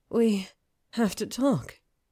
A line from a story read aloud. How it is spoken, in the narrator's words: she breathed against his mouth